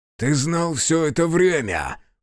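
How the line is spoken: Growling. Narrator (Russian): прорычал Аяшики

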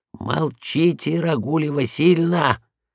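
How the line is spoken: Whisper. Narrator (Russian): шепнул я ей

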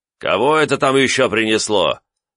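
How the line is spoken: Rude question from inside. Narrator (Russian): грубо спросили меня изнутри дома

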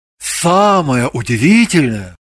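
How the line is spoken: Theatrical epic recitation. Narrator (Russian): произнес он артистическим тоном, которым читают былины

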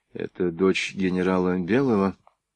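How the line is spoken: Quiet speech. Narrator (Russian): тихонько проговорил Протопопов

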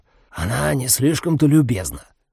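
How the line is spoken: Loud whisper. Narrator (Russian): громко прошептал

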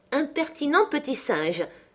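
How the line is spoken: Surprised exclamation. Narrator (French): s'écria Madame Linton surprise

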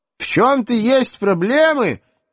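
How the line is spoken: Tearful, hopeful shout. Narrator (Russian): Едва сдерживая слезы, с надеждой крикнула Рахиль

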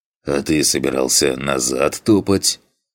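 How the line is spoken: Dismissive snort. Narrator (Russian): Хмыкнул, не придав этому сообщению особого значения, Фантик

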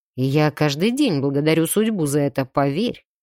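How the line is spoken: Snorting. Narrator (Russian): хмыкнул он

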